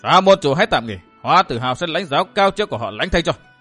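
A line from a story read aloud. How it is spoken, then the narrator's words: Loud shout. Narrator (Vietnamese): một người thét lớn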